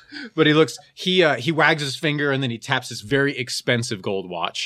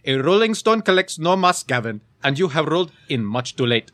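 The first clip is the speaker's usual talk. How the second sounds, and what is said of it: Put-on Indian accent. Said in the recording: “actually Indian... That was a funny accent... That's just his accent”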